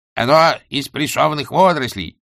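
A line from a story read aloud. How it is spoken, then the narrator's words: Barking. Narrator (Russian): рявкнул главный гостеприимец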